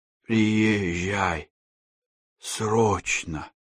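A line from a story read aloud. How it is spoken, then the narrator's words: Coughing hoarse rasp. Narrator (Russian): Кашляя, прохрипел тот же голос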